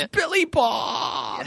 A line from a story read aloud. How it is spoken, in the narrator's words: Billy Bob's one-eyed sister, who is also his bride-to-be, as she wails